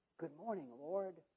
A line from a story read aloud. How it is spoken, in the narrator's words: Those who wake up cheerfully saying